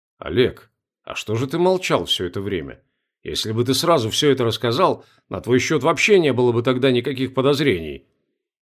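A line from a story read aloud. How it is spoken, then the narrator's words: Bewildered. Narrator (Russian): растерянно проговорил милиционер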